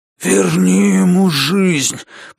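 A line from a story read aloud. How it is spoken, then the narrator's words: Hoarse. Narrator (Russian): прохрипел он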